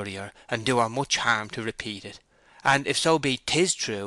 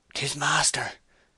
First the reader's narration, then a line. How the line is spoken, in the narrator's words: one of the men whispered